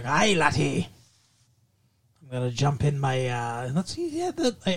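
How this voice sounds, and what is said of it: Cartoon character voice, Scottish accent. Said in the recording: “He was Scottish”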